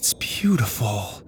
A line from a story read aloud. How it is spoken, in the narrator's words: Susie whispered